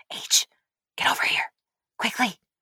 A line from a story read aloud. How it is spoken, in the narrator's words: she whisper shouted